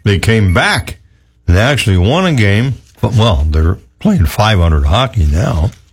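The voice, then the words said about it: Hoarse, strained voice. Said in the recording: “my voice is gone today ... Yelling and screaming at the TV last night”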